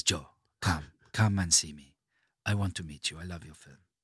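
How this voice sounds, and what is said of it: Imitation of Aurelio De Laurentiis. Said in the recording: “A little bit like that, his voice was.”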